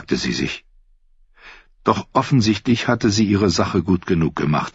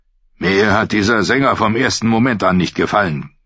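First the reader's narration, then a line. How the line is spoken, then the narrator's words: Growled. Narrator (German): knurrte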